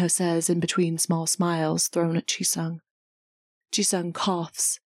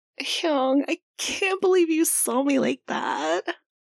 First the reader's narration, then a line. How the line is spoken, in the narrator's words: whines